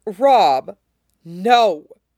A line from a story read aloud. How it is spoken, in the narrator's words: Rob said savagely